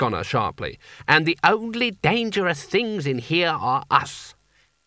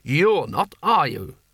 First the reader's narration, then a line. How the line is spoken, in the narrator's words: He added sharply